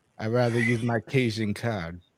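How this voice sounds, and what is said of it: Bad put-on Cajun accent. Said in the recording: “That was a horrible Cajun accent.”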